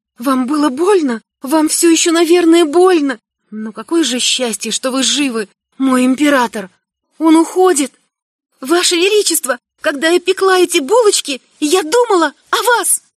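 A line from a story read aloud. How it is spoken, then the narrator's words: Stammering, high, frightened. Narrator (Russian): Запинаясь, произношу высоким, испуганным голосом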